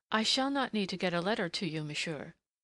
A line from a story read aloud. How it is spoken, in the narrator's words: she told him stiffly